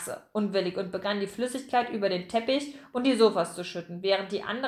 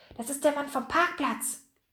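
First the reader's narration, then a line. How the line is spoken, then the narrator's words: Excited whisper. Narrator (German): flüsterte Pomme de Terre aufgeregt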